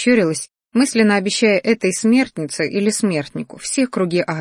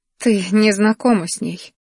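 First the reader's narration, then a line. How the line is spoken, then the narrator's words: Sad, tearful girl. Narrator (Russian): печально улыбнулась девушка, вытирая слезы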